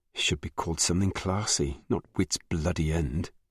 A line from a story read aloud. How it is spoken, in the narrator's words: she muttered